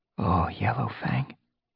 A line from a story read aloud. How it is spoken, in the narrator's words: Fireheart whispered